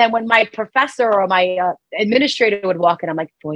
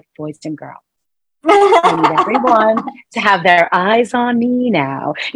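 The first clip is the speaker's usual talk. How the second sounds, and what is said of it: Sweet, composed teacher voice. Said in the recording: “I call it my teacher voice”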